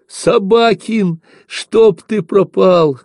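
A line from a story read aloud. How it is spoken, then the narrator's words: Loud joyful swearing. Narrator (Russian): громко и радостно выругался Ефимка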